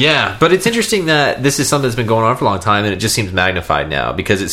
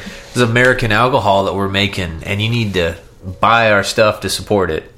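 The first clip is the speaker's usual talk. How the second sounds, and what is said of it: Old-time Southern American accent. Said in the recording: “I'm talking in an old time Southern accent”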